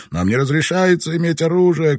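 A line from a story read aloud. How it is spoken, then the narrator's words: Shouting. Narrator (Russian): кричал Ниндзин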